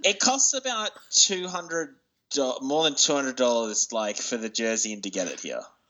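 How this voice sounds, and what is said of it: Australian accent. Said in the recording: “if you're having trouble figuring out where his accent is coming from, that's Australia.”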